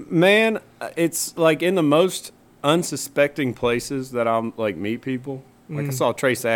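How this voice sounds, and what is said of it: Usual voice. Nothing is said of it.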